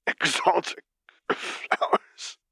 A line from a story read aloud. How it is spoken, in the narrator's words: Vader wheezed